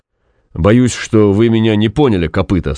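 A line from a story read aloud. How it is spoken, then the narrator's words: Plain. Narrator (Russian): сказал генерал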